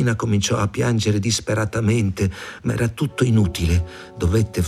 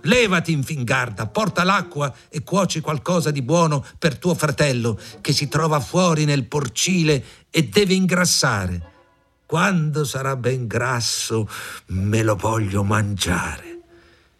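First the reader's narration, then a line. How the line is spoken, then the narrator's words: Old woman shouting. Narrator (Italian): La vecchia le gridò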